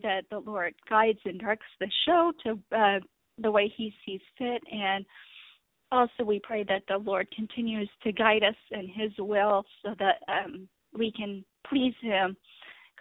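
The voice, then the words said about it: Sick voice with a cold. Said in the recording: “As you can probably tell by my voice, I'm kind of under the weather... I got a cold the other day”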